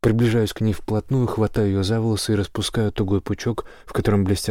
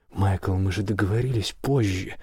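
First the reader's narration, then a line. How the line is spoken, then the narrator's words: Soft whisper. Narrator (Russian): тихо шепит она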